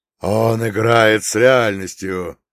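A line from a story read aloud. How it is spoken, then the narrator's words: Furious challenged demon roar. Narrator (Russian): со злой яростью проревел архидемон, которому только что бросили вызов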